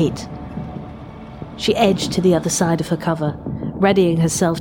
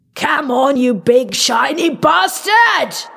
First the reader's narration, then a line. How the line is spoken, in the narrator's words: he screamed, his voice raw